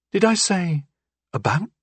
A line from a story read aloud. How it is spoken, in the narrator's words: Glass asked anxiously